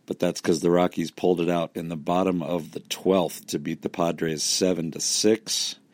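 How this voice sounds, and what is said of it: Hoarse, strained, nearly lost voice. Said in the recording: “I'm obviously recording this after the game because my voice is gone.”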